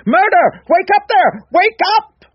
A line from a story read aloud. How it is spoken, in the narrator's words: With the dreadful conviction of the reality of what he had seen still strong within him … screaming